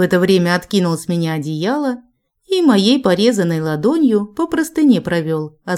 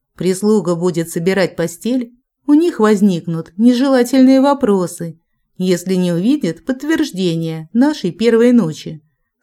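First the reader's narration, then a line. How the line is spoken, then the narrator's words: Calm speech. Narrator (Russian): спокойно говорил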